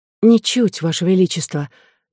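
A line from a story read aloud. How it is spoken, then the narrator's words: Quiet. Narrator (Russian): так же тихо ответила она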